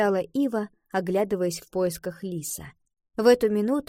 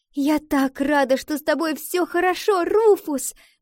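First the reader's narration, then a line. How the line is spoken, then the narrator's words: Joyful exclamation. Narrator (Russian): воскликнула Валентина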